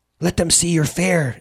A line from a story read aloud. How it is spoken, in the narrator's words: exclaimed Sin, so prickly, so sickly proud of her son